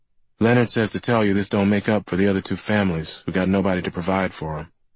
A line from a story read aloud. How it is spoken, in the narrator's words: Surratt said